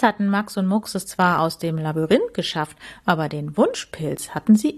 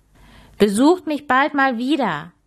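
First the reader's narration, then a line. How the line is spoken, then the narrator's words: Cheerful call. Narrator (German): rief es, während es ihnen fröhlich nachwinkte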